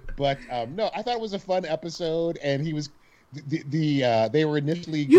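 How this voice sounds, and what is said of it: Usual voice. Nothing is said of it.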